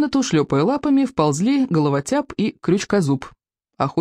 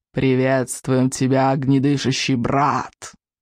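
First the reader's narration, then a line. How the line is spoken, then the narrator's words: Creature hissing. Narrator (Russian): прошипел головотяп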